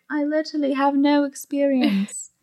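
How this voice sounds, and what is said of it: Put-on English accent. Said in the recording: “I did an English accent as a joke”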